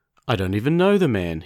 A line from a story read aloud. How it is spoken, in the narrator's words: he said